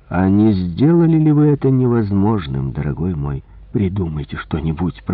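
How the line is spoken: Muttered. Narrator (Russian): пробормотал

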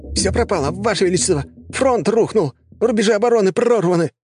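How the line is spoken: Shrieking messenger. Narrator (Russian): посыльный визжать

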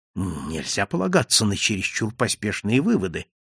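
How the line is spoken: Muttered. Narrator (Russian): пробормотал я

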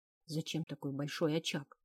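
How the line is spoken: Whispered question. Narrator (Russian): шепотом спросила я у Свейна

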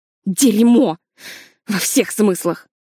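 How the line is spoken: Bursting into laughter. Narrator (Russian): Картер не выдержал и расхохотался

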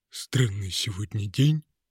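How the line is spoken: Grumbled. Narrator (Russian): проворчал мешок

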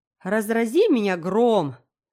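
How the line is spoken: Astonished exclamation. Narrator (Russian): воскликнул мистер Харрисон, изумленный столь неожиданной развязкой

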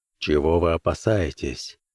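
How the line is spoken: Quiet inquiry. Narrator (Russian): тихо осведомился Бэкстер

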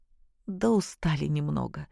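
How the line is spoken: Quiet complaint. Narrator (Russian): тихо пожаловалась Наташа

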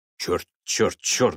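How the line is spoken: Uncertain muttering. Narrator (Russian): бормотал Элтон, явно не зная, как поступить

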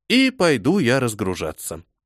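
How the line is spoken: Gently interrupting. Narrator (Russian): мягко прервал я священника

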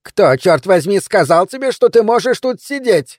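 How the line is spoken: Angry yelling. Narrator (Russian): Донна Хиггинс, хозяйка ресторана, орала на посетителя

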